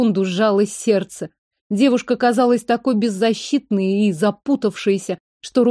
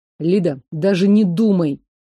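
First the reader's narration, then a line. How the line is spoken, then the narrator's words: Angry growl. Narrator (Russian): злобно рыкнул Гордеев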